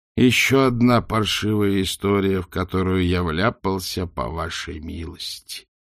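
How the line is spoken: Groaning. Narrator (Russian): простонал Ринсвинд

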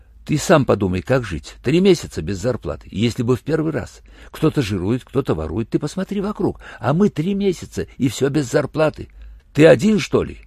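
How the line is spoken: Fast anxious muttering. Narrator (Russian): Так же быстро и тревожно забормотал в ответ его странный волосатый сосед

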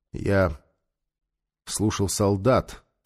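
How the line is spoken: Calm. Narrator (Russian): продолжил Нефер спокойно

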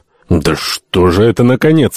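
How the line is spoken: Grumbling. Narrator (Russian): ворчал Альтамонт

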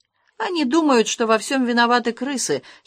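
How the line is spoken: Giggling. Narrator (Russian): хихикнул Ангалла

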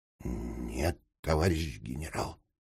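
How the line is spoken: Quiet reply. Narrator (Russian): тихонько ответил Крым

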